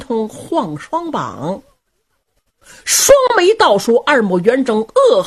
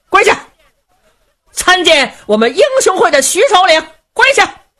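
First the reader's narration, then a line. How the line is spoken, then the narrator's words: Loud shouting guard. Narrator (Chinese): 旁边刀斧手高声喊嚷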